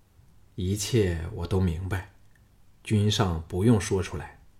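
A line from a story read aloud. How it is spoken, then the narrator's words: Low, moved voice. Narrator (Chinese): 项少龙心中一热，压低声音说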